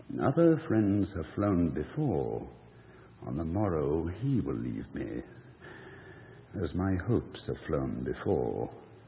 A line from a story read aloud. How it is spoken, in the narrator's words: till I scarcely more than muttered